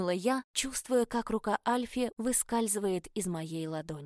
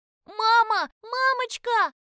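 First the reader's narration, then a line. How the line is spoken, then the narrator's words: Frightened scream. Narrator (Russian): закричал Альфи испуганно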